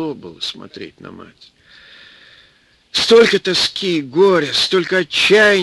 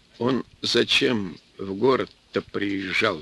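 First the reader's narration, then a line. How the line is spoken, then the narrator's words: Plain. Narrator (Russian): спросил начальник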